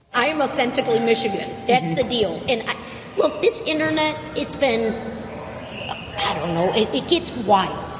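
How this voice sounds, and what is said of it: Seemingly fake put-on accent. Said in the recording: “what seems like a fake accent.”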